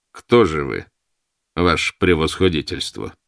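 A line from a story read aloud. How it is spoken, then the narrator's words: Mocking question. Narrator (Russian): спросил Бердышев насмешливо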